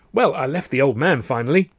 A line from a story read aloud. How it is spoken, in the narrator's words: Stan explained cheerfully